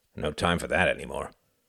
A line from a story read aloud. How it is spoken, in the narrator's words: grunted the cabbie